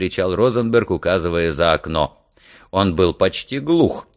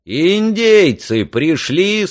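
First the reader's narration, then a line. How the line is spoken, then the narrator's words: Loud question. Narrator (Russian): спросил он громко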